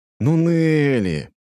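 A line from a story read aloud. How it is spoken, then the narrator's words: Drawling. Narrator (Russian): протянул я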